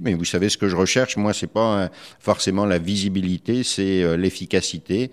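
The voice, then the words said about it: French accent from France. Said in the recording (French): “Vous êtes un Québécois d'origine française, ça s'entend, comme on dit en France quand on, entend notre accent ... cet accent, en effet, ne me quitte pas”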